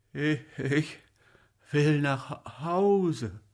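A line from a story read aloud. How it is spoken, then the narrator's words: Murmur. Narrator (German): murmelte Chipsow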